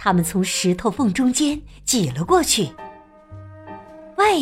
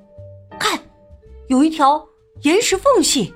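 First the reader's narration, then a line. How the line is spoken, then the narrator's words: Shouting. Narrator (Chinese): 莫里斯叫道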